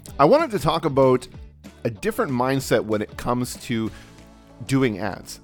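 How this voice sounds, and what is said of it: Nasal voice from a cold. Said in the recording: “I've got a bit of a cold at the moment, so I might sound a little bit nasally”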